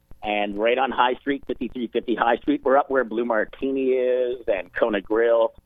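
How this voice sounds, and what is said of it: Canadian accent. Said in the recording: “my Canadian accent ... not hoose”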